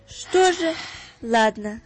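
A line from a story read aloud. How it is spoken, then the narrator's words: Sighing. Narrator (Russian): вздохнула мама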